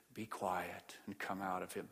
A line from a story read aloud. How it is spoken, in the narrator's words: he dropped his voice and almost whispered